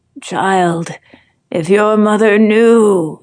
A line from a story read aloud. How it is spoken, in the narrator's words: groans